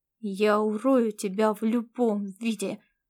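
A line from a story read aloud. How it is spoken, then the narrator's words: Vicious hiss. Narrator (Russian): злобно прошипел звездный кот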